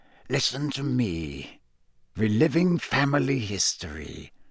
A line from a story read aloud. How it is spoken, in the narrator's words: said quietly